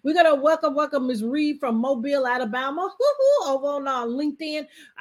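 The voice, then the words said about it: Southern twang. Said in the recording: “my southern twang. I'm from Alabama.”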